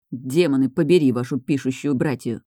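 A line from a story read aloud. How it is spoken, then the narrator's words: Muttering. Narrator (Russian): пробормотал Райан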